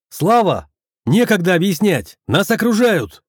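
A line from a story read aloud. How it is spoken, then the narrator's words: Shout. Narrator (Russian): крикнул я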